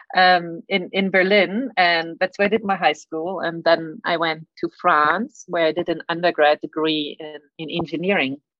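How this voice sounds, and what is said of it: German accent. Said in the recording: “I grew up in Germany. That's why I have a weird accent.”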